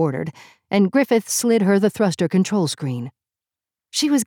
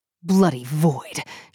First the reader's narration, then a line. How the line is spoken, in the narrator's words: she growled